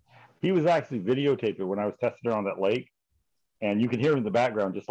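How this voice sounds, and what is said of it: Noticeable regional accent. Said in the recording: “I'm sure somebody's going to notice my accent.”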